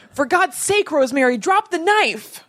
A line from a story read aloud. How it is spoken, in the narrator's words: he was delirious and he reportedly yelled